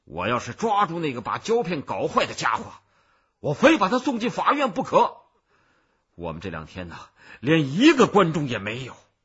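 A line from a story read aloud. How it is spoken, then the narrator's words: Loud shouting. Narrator (Chinese): 里面有人大声的喊着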